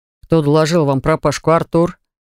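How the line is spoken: Displeased question. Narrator (Russian): спросил недовольным тоном

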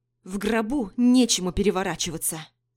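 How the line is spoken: Growled. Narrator (Russian): прорычала

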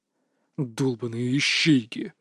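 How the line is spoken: Growling. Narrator (Russian): рычал Валерий Наумович, известный в узких кругах как Наум

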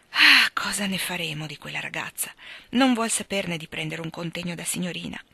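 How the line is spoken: Sighed. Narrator (Italian): sospirò Meg, con espressione poco soddisfatta

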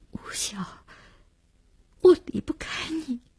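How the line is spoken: Choked, sobbing. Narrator (Chinese): 只哽咽了一句

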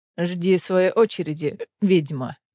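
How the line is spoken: Grumbling. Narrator (Russian): проворчал иллирианец

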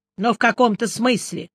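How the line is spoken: Angry snort. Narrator (Russian): сердито хмыкнул шеф

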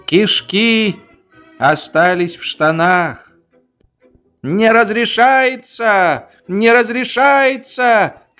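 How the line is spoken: Young soldier shouting. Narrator (Russian): кричал молоденький мадьярский солдат

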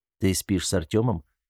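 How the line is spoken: Quiet question in ear. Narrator (Russian): тихо спросил он ее на ухо

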